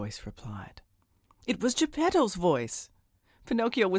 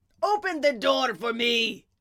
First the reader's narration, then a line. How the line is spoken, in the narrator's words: Geppetto shouted